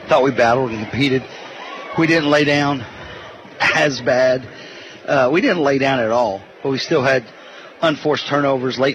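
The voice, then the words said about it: Out of breath, breathless speech. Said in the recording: “Sorry, I'm out of breath.”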